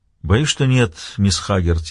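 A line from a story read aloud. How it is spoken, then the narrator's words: Sigh. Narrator (Russian): вздохнул Том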